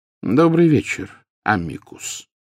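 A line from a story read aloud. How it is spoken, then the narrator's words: Calm, casual greeting. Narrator (Russian): спокойно произнес Дамблдор, словно приветствуя гостя, явившегося на чашку чая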